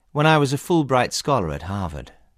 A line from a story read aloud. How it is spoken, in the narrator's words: said calmly